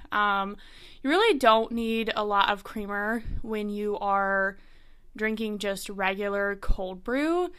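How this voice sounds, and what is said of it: Breathless, amped-up speech. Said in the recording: “I feel like I'm going to be out of breath this entire episode, but I'm just amped up”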